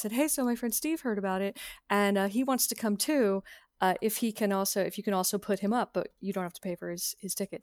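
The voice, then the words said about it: Bad impression, slightly deeper pitch. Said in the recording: “my bad ... impersonation. And I just try to pitch my voice slightly deeper”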